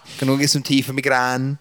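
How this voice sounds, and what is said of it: Put-on Scouse accent. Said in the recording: “a very good Scouse accent ... speaks like a Scouser”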